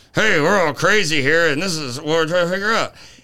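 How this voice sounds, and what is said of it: Speaking through clenched jaw. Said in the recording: “if your jaw's wired shut, it sounds like this”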